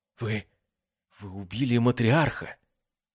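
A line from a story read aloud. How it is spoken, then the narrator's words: Forced out. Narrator (Russian): Наконец выдавил Адриан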